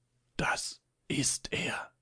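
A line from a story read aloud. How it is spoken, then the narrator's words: Soft whisper. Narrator (German): flüsterte leise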